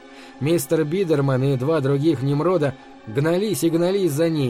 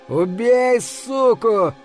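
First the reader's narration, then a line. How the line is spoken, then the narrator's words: Howling. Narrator (Russian): взвыл Кушман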